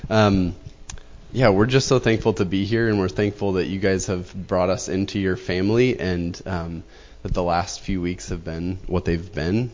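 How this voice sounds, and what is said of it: Nasal, congested voice from a cold. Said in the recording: “coughing fits I get into or any nasally-ness. ... I've got a cold”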